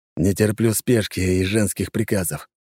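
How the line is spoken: Slightly husky voice. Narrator (Russian): хрипотца в голосе

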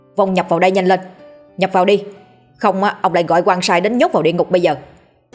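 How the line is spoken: Loud shout. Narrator (Vietnamese): lão quát lớn

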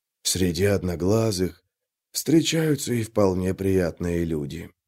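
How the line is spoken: Gruff mutter. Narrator (Russian): буркнул Трясучка

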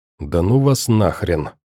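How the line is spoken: Barely audible whisper. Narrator (Russian): прошептав еле слышно

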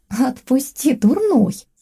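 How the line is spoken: Cheerful, playful wife. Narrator (Russian): весело отвечает моя жена

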